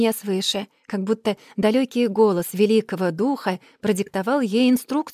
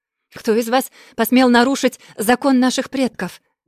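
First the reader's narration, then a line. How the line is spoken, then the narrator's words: Angry shout. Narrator (Russian): гневно прокричала Маримба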